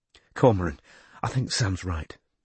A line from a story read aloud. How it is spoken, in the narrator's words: she whispered